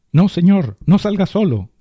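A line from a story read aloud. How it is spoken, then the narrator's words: Eldest shouting. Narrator (Spanish): gritó el mayor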